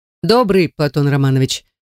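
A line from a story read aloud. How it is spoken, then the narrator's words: Rather dry reply. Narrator (Russian): Аделаида отвечает довольно сухо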